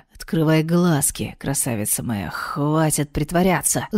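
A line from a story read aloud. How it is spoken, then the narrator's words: Angry speech through gritted teeth. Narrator (Russian): Зло процедил Гедриен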